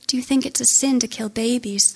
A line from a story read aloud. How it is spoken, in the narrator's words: the boy said